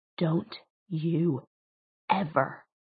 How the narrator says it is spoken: he whispered, mouth a blanched line

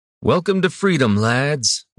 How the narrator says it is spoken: Denric called out to the crew

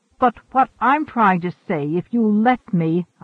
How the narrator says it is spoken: Aliat yelled

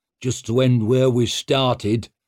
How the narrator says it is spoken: grumbled Downside

